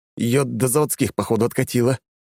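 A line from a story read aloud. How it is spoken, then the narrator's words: Crushed, dejected voice. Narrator (Russian): убитым голосом произносит Нюк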